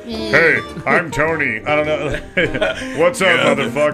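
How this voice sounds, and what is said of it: Imitates another person's voice. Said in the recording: “Can you do a Tony impression?”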